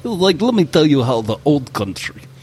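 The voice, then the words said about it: Deliberately bad put-on Russian accent. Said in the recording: “I'm gonna do a really bad Russian accent”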